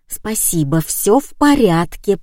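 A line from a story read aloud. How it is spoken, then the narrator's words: Hissed. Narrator (Russian): прошипела я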